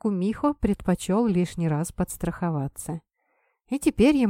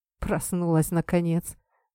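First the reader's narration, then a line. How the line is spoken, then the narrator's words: Smirking grunt. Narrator (Russian): хмыкнул Кумихо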